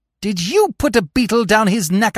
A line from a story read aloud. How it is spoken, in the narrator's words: I cried